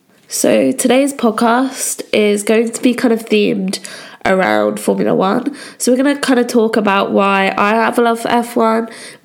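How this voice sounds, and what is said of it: Slightly croaky voice. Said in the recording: “my voice is a little bit croaky. This is just due to the fact that I've picked up a cold”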